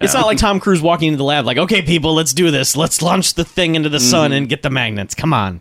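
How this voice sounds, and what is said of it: Imitates another person's voice. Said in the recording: “my great Tom Cruise impression... Good job. Pretty good.”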